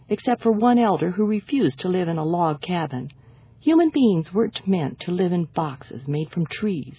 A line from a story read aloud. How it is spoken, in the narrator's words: he said